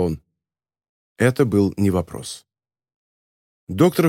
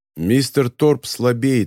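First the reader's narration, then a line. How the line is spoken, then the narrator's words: Stern. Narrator (Russian): строго сказал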